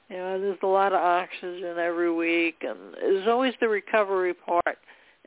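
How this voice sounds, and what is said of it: Bronx New York accent. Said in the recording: “I got a Bronx, New York accent and a few strokes ... I do have an accent, and I do pronounce words differently”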